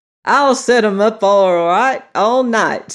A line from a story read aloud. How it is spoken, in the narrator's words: Steve shouted as the reel went on regardless